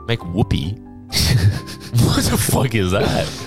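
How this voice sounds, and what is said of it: Usual voice. Nothing is said of it.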